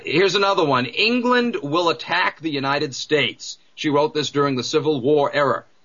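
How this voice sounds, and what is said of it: New England accent, intrusive R. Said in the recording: “my New England accent, putting R's where they don't belong and dropping them where they do”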